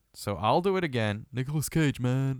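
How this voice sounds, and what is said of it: Imitates another person's voice. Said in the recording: “his Nicolas Cage impression ... I'm bad at it. I'm bad at it”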